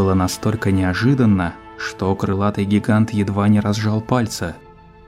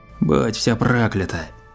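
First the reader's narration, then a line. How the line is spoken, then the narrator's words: Victim's hoarse reply. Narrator (Russian): хрипло ответила жертва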